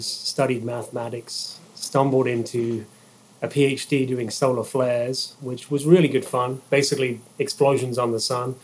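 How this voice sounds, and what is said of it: Slight British accent. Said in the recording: “hopefully you can still tell I have a bit of an accent. But I'm from the UK”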